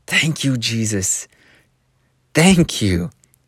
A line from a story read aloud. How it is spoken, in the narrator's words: she cried aloud